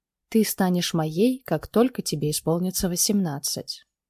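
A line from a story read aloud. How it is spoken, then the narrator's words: Quiet. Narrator (Russian): тихо произнес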